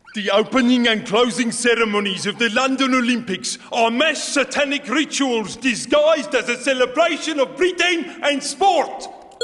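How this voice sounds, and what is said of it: Good put-on Boris Johnson-like accent. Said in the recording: “Oh, very, very good accent there. ... Is that just from the accent you were doing? ... The accent. Yeah. I sense Boris.”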